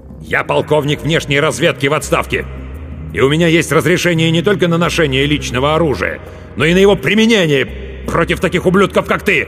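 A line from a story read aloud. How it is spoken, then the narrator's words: Loud bark. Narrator (Russian): И громко рявкнул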